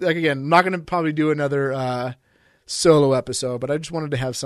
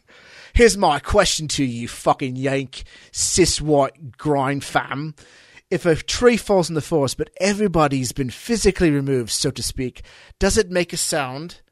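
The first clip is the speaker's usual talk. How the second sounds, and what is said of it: Put-on British accent. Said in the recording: “I got to talk in a limey voice.”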